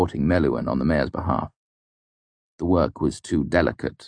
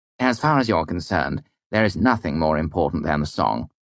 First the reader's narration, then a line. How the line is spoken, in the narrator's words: said firmly